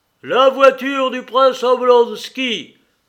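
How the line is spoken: Thundering shout. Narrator (French): cria le Suisse d'une voix tonnante

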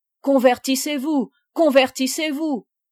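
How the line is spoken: Inquisitors crying out. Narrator (French): s'écriaient les inquisiteurs

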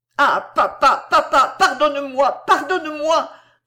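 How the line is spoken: Anguished exclamation. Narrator (French): s'écria-t-il, reconnaissant son père à ses sanglots

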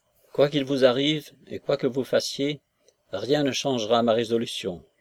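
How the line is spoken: Plain. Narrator (French): lui dit Nekhludov

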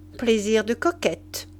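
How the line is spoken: Plain. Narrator (French): dit la Vieuville

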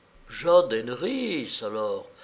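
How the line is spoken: Whisper. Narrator (French): murmura Laurence Martin

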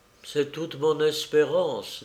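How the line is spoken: Woman speaking low. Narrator (French): dit-elle à voix basse

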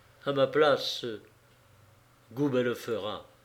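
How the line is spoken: Murmured. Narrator (French): murmura-t-il

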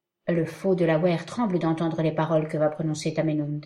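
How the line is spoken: Plain. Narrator (French): dit-il

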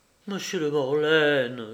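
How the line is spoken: Pleading. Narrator (French): suppliait Marie

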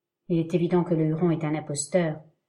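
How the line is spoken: Said coldly. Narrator (French): dit froidement Heyward

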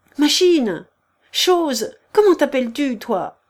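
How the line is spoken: Harsh speech. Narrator (French): dit-elle durement

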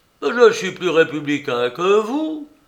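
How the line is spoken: Exclaimed by fat man. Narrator (French): s'écria le gros homme

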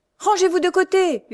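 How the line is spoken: Coachman shouting. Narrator (French): hurla l'automédon

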